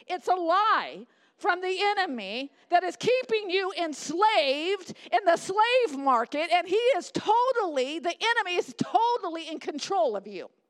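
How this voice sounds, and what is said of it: Angry, impassioned preaching voice. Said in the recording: “you sound a little mad... I am mad”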